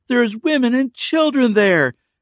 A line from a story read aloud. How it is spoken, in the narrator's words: Becca pleaded, exasperated